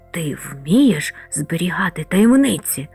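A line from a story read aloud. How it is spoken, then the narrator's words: Whispered. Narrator (Ukrainian): зашепотів він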